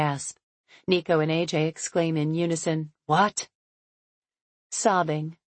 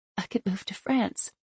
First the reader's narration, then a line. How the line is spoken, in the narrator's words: I whisper, ignoring the tears streaming down my cheeks